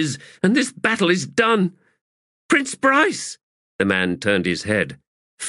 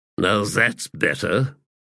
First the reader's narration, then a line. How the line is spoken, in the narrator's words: he grunted